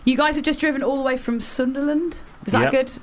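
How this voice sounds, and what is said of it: Put-on Sunderland accent. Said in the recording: “Was that like a play on the accent? ... I was trying to do the accent. ... I thought it was quite good, actually. ... It was canny.”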